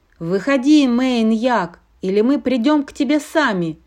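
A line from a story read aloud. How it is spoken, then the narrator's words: Shouted. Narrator (Russian): крикнула Радуга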